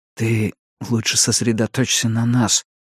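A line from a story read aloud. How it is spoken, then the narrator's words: Beast's whisper. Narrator (Russian): прошептал зверюга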